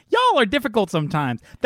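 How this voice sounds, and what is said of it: Imitates another person's voice. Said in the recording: “my perfect impression ... That's what you sound like ... it's really just your voice. I'm repeating it back to you ... That's exactly what you sound like.”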